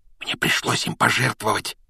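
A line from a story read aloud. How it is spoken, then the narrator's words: Shaken whisper. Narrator (Russian): прошептал Рон, он тоже был потрясен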